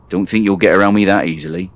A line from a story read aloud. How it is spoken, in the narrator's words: he growled